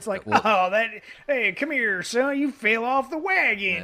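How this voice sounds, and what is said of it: Put-on Southern accent. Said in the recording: “that was your best Southern accent... Southern Western”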